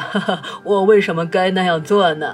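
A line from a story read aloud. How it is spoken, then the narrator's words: Unhesitating. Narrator (Chinese): 我毫不犹豫地说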